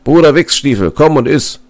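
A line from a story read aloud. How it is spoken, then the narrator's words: Calling out. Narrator (German): rief er dem Jäger zu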